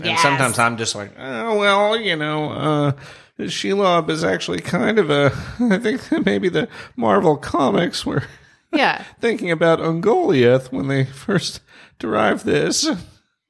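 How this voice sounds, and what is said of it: Imitates another person's voice. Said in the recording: “That was a really good impression. ... It's almost like Sean King was here.”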